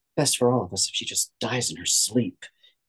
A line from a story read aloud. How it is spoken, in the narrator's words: his sister whispered